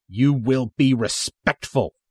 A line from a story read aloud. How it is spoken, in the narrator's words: the soldier snaps